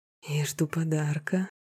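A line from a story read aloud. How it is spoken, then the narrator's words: Hoarse whisper. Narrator (Russian): хрипло прошептал Роберт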